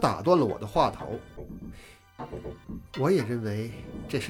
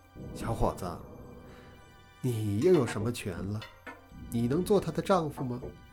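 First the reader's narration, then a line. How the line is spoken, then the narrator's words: Gentle, soft. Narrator (Chinese): 香香妈妈柔声道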